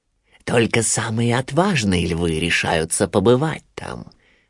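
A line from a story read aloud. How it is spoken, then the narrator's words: Persuasive whisper. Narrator (Russian): нашептывал Шрам Симбе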